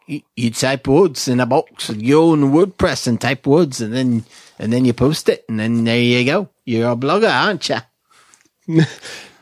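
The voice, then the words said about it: Put-on Australian accent. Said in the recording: “I'm always doing this Australian accent because of him. Pro blogger.”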